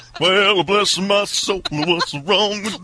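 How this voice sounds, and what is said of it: Imitates another person's voice. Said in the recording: “the Elvis impersonator comes onto the scene.”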